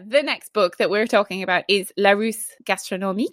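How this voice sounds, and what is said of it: Exaggerated put-on foreign accent. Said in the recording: “Ooh, great accent. ... Terrible.”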